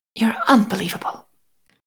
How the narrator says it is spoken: Carlisle whispered, voice oddly hoarse

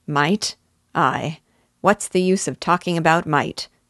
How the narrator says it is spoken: growled Uncle Kimball

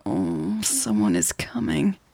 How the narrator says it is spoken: groaned

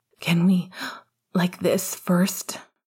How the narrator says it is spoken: Remus panted

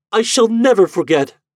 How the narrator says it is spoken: cried

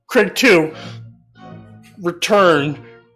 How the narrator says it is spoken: Shouts down

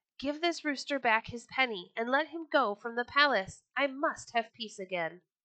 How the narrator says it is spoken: he yelled to a slave

